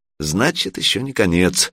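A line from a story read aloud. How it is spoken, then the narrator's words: Sighing. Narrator (Russian): вздохнула Алена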